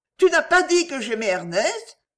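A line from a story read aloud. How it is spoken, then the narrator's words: Exclaiming. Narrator (French): s'écria Geneviève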